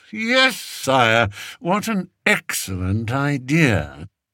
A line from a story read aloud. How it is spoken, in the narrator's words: said Spittleworth through gritted teeth